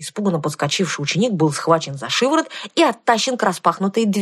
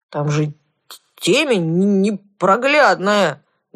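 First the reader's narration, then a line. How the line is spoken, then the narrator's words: Mournful wail. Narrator (Russian): горестно взвыл Кузьмай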